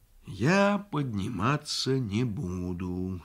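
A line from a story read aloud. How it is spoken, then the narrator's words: Plain. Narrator (Russian): сказал дед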